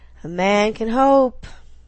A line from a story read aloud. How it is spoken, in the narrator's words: Landry drawled